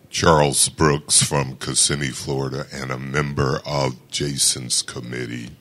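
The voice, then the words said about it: Deep male voice. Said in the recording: “With the deep voice.”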